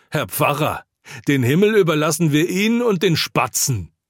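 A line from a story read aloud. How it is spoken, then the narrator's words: Woman's shrill scream. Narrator (German): kreischend schreit eine Frau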